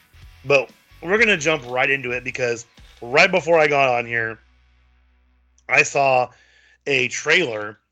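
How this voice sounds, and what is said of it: Slightly hoarse voice. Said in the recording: “I sound a little hoarse. ... enjoy my sultry sounds”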